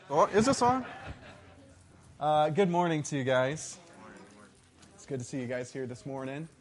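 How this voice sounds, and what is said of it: Teacher-style presenting voice. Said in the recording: “teacher voice”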